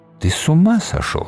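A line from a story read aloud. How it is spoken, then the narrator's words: Quiet. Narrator (Russian): сказала она тихо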